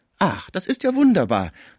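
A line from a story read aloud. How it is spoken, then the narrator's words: Exclaimed. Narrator (German): rief Schmucke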